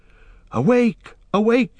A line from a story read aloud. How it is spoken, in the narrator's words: he cried